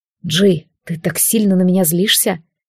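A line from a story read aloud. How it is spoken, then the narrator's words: Quiet question. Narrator (Russian): тихо спросил Алистар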